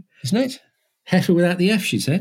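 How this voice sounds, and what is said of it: Overdone put-on Irish accent. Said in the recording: “You've got to do it in an Irish accent ... I was overdoing it ... I was trying too hard”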